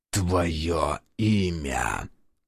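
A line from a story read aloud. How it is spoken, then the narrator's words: Choked wheeze. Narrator (Russian): Захрипел тот, болтаясь в его хватке, как котенок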